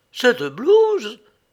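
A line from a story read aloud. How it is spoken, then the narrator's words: Indignant exclamation. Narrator (French): s'écria Lou, les yeux exorbités d'indignation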